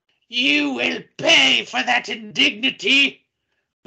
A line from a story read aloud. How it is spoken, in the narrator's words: the brown lady screeches at you